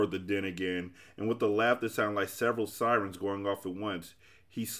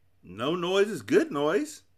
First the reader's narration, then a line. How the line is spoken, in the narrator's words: exclaimed the humbug happily, trying to catch the spirit of things